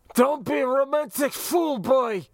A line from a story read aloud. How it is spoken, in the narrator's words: Kefin sputtered from the floor, spittle flying